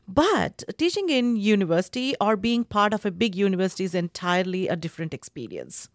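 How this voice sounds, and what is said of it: Indian English accent. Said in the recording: “by my accent and my name, you can figure out that I'm from India”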